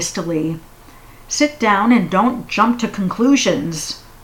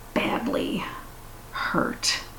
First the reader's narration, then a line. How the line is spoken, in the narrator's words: he said quietly